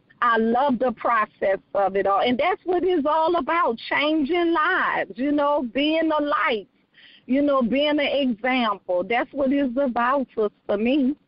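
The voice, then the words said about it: New Orleans accent. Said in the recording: “they probably hear your accent too ... I am from New Orleans, Louisiana, born and raised”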